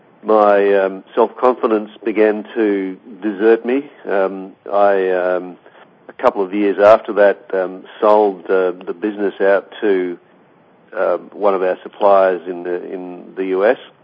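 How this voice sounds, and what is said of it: Australian accent. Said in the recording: “I'm in Australia, in case you hadn't picked up my accent.”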